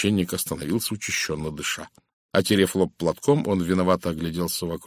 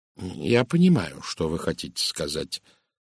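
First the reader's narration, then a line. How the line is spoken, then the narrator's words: Calm. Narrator (Russian): спокойно промолвил Пуаро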